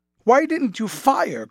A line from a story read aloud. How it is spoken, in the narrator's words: cried Sumner